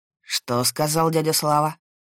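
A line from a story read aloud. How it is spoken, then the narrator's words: Through gritted teeth. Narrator (Russian): Процедил Максим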